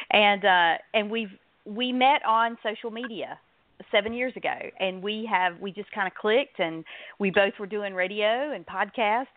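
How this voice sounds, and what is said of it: North Carolina Southern accent. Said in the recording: “I live in North Carolina, in case you didn't guess the accent”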